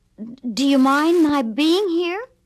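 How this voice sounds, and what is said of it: Shaky voice. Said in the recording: “in a shaky voice”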